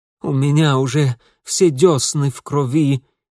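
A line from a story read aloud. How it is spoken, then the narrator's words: Slurred lisp. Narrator (Russian): невнятно прошепелявил он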